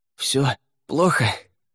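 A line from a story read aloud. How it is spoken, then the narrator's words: Hoarse question. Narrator (Russian): хрипло спросил Лаверн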